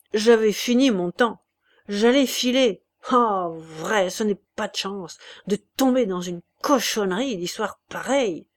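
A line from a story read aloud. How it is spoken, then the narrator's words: Grumbling. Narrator (French): grogna Chouteau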